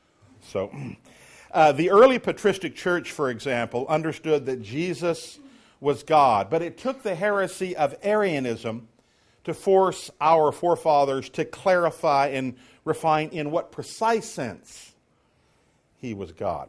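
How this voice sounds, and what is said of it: Speaking loudly, raised voice. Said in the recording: “I'm talking a little louder ... Talking a little louder.”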